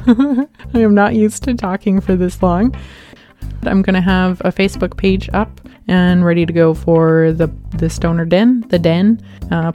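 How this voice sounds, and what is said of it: Voice going hoarse, strained. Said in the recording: “I'm starting to lose my voice.”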